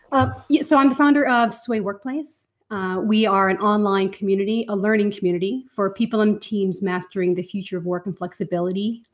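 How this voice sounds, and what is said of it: Irish accent. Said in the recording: “my Irish accent”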